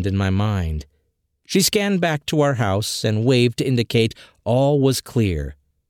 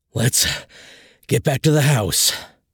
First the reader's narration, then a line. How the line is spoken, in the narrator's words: panted, a little too exhausted from our prior adventure and the climb down the trail